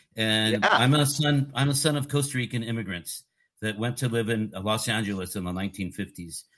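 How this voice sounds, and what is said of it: Californian American English accent. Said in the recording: “my accent, my California accent.”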